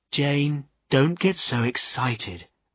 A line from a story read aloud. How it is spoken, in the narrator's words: replied Nancy calmly